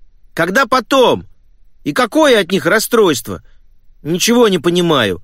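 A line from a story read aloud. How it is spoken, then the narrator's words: Hurt shout. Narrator (Russian): обиженно прокричал Том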